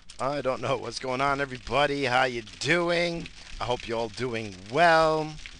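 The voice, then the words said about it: Strained voice, losing his voice. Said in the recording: “That was my third attempt. I can't. I guess I'm losing my voice.”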